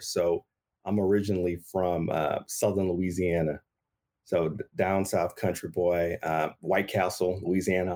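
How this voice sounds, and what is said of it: Slight Southern US accent. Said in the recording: “that little accent”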